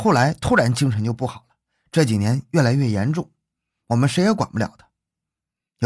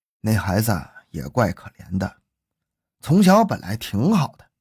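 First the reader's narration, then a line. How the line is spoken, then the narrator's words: Sighing old father. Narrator (Chinese): 六十多岁的张君山是张林的父亲，他叹了口气说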